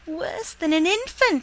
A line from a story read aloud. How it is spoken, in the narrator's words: his granddaughter cried